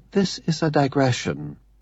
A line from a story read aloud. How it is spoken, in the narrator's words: Alan said gently